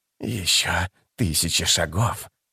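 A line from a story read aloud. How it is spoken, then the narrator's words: Hissing. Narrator (Russian): прошипел он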